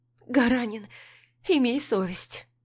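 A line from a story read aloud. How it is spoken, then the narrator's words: Tired laughter. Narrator (Russian): Устало смеется Ира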